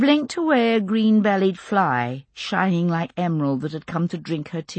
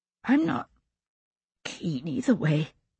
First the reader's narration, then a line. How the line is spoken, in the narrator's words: she whispered after a long pause